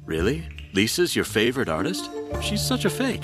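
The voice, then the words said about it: Deep male voice. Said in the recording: “deep voice”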